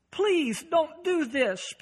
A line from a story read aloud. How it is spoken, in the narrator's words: pleads the man